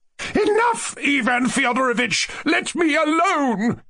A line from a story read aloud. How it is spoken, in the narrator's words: cried Lizaveta Prokofievna